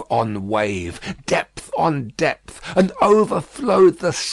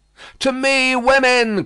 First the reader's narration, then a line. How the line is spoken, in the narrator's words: cried Madame, his wife